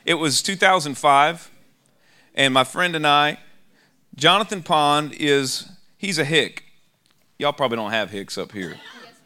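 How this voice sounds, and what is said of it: Southern country-boy accent. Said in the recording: “I sound like a country boy”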